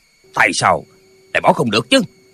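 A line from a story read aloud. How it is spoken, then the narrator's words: Angry. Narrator (Vietnamese): Thiên Môn đạo nhân tức giận nói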